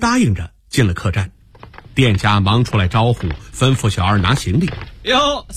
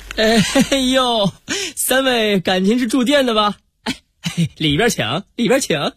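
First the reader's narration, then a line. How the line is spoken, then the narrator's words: Cheerful waiter asking. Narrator (Chinese): 笑嘻嘻的出来个小二，问他们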